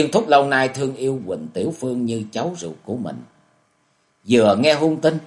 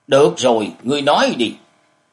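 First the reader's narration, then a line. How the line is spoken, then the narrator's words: Angry loud shout. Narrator (Vietnamese): Giờ thấy không thể giết được chàng, ông giận dữ quát lớn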